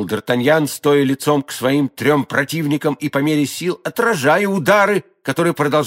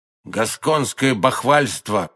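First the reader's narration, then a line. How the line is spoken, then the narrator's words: Stranger muttering. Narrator (Russian): пробормотал незнакомец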